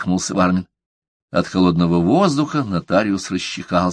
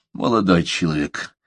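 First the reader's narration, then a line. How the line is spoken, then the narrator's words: Sighing. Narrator (Russian): вздохнул Вармин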